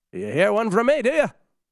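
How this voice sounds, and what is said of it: Bad put-on Irish accent. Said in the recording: “That's my Irish accent. That's terrible.”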